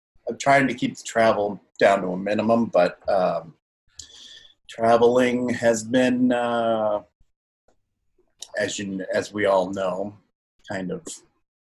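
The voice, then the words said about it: New England accent. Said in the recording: “you can hear it ... I can hear the New England”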